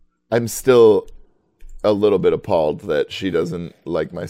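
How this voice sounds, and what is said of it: Usual voice. Nothing is said of it.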